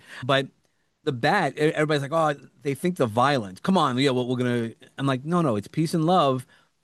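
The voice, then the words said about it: New York accent. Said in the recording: “my New York accent ... I have a New York accent.”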